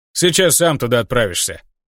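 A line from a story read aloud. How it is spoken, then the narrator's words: Scoffing command. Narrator (Russian): хмыкнул Маркус и приказал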